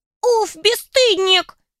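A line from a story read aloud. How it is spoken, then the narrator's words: Squeaky drawl, female. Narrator (Russian): Писклявым голоском протянул второй домовенок, явно женского пола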